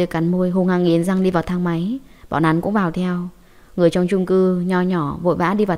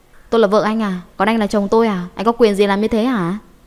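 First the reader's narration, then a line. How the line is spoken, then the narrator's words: Angry loud shout. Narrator (Vietnamese): Hạ Tuyết tức giận ngồi xổm trong thang máy hét lớn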